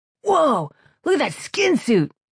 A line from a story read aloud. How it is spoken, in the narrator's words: exclaimed the younger man